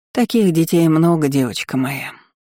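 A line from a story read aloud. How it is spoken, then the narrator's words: Grandmother's heavy sigh. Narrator (Russian): тяжко вздохнула бабушка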